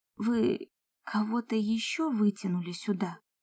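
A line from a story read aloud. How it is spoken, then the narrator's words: Tired question, woman. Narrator (Russian): спросила я устало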